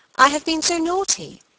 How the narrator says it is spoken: she exclaimed

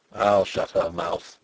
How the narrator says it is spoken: said Sapt grimly

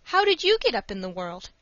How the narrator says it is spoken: asked Dick anxiously

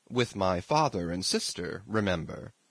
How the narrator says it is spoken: said Prince Andrew gently

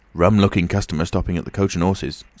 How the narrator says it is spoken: said Teddy

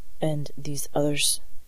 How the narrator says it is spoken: she asked in a level voice

